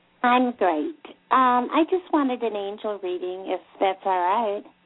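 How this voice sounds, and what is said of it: Slight Southern twang. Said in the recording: “I kind of hear a little bit of a southern twang in your voice ... There's a little accent. Doesn't sound like New York, though.”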